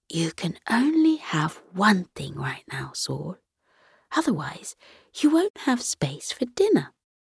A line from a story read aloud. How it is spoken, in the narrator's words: Saul's mother whispered